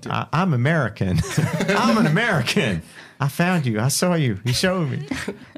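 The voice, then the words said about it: Put-on American accent. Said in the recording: “have an American accent ... give us your winged American female accent ... I always go Southern or Texan”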